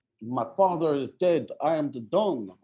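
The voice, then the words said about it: Put-on Italian accent. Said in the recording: “talking in an Italian accent”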